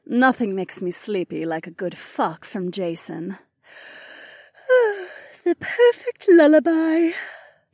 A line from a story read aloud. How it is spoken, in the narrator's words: Becca yawned